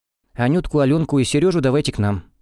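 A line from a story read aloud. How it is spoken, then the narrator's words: Plain. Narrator (Russian): сказала Алла Павловна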